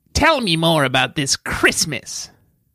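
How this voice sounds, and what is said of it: Skeletor cartoon character voice. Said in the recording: “my best Skeletor impersonation”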